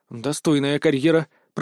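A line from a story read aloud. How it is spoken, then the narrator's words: Mutter. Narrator (Russian): пробормотал я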